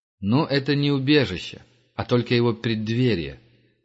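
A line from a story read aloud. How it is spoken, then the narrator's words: Patronizing tone. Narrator (Russian): покровительственным тоном сказал Герман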